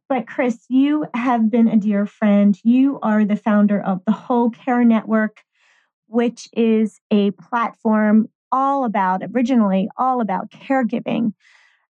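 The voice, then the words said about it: Raspy, slightly off voice. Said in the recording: “my voice today is a little off ... it's raspy”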